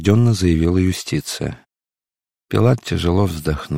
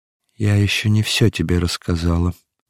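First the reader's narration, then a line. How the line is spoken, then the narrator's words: Trembling voice. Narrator (Russian): продолжала юстиция дрожащим голосом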